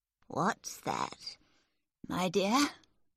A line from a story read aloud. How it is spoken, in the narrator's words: Miss Crawley asked sleepily